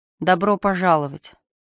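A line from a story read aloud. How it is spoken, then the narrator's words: Resigned sigh. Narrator (Russian): вздохнув, Стив сдался, бросив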